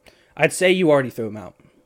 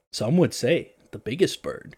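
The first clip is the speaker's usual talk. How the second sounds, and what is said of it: Dramatic narrator voice. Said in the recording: “like a narrator voice”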